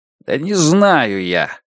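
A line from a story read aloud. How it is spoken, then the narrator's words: Angry repetition. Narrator (Russian): сердито повторил звон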